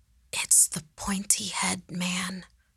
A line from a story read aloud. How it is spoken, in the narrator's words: Andres whispered, a realization washing over his face